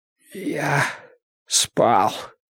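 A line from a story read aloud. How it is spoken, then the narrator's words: Hoarse, pained throat. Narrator (Russian): ответил он сипло, хотя разговор громче шепота причинял горлу тяжелые страдания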